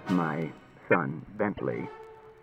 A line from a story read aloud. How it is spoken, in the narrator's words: said Bailey in a low voice